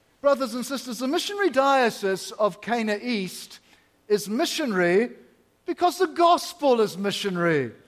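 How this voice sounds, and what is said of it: Strong North American accent. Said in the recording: “my strong North American accent”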